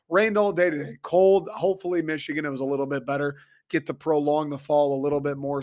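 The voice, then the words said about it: Raspy, crackly voice. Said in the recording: “if you can hear my voice is uh, I'm doing a horrible Scarlett Johansson impression ... a little raspiness to it ... you can hear the like crinkles in my voice”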